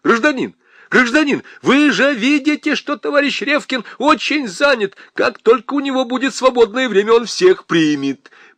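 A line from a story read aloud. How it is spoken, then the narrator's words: Elderly woman shouting. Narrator (Russian): секретарша, пожилая тетя в очках, кричала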